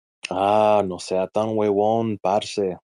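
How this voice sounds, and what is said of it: Put-on Colombian Spanish accent. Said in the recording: “I'm just putting on the Colombian accent.”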